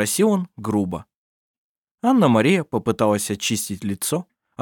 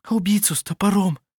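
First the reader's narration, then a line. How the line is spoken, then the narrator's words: Breathless whisper. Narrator (Russian): прошептала она, задыхаясь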